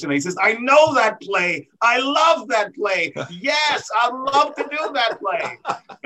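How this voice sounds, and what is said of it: Imitates another person's voice. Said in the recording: “That's my best Ted Lang impression.”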